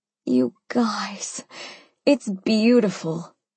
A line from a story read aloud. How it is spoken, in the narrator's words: I breathed, gazing with delight at my new baby